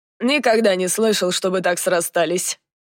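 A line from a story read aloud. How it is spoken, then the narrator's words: Skeptical snort. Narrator (Russian): хмыкнул Дан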